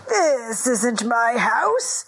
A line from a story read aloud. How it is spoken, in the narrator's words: chuckled Reb Chaim